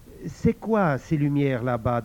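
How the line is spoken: Plain. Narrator (French): demanda-t-il

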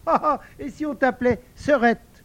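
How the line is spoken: Child laughing. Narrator (French): l'enfant lui dit en riant

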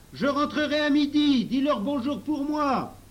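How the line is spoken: Shouted again. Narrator (French): Pony Bibi cria encore

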